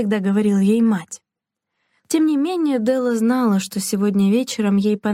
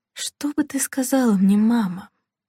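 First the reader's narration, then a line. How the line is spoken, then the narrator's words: Quiet self-questioning. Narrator (Russian): негромко спросила она себя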